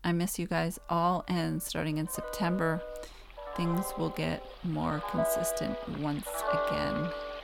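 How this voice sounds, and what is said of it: Hoarse, strained, fading voice. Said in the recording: “my throat has had it. I'm losing my voice.”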